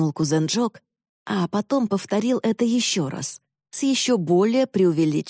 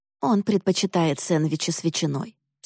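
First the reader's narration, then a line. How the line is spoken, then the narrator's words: Calm. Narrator (Russian): спокойно сказала Констанция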